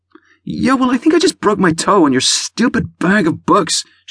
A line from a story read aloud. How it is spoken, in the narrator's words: whined